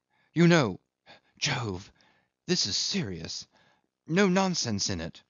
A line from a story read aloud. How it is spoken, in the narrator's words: as Jim had whispered hurriedly with a troubled, concerned face